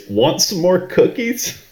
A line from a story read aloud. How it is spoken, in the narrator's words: screaming in Harlan's or in Ransom's face